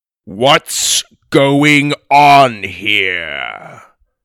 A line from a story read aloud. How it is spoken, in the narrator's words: boomed the giant's voice